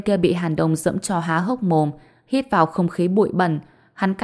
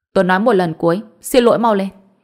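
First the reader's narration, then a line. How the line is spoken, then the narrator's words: Cold. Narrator (Vietnamese): Hàn Đông nói, lạnh lùng nói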